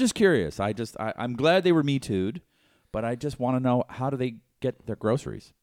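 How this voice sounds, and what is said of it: Usual voice. Nothing is said of it.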